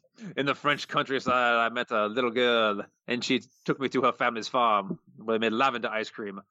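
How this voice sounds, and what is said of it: Put-on French accent. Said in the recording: “This is a great accent... Whenever I talk about France, that's my accent... That's my César and Ugolin accent”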